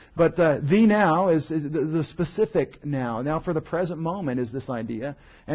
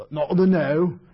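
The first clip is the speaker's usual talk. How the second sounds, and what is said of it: Bad Scottish accent. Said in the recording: “he's being a good Scottish preacher here ... You know, the Scottish, a bad Scottish accent.”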